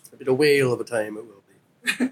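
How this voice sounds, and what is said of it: Pretty good put-on accent. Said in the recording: “That was a pretty good accent.”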